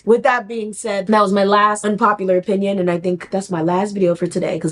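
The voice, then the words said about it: Soft, fading, worn-out voice. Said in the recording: “my voice is really starting to give out. It's getting real, real soft.”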